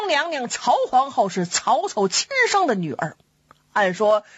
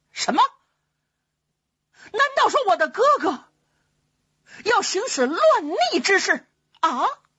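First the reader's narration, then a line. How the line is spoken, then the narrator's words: Furious. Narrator (Chinese): 皇后勃然大怒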